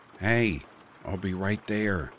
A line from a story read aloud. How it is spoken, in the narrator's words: I said, my voice raised slightly